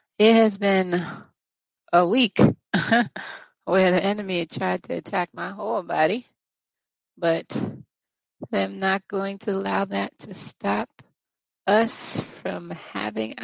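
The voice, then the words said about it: Rough, strained voice. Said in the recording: “Excuse my voice. ... if I have to take a little bit of a second to catch my throat together.”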